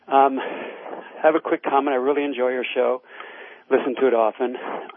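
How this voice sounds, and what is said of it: Out of breath, panting. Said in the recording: “I'm out of breath. I was just running.”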